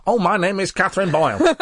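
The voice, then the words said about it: Imitates another person's voice. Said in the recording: “That sounds strikingly similar to the voice you do when you do an impression of me.”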